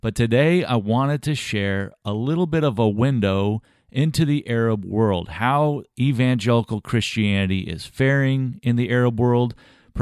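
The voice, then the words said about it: Raspy, scratchy voice. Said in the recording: “my voice is not too raspy. It's a little scratchy. I'm battling a sore throat ... a little bit different sounding”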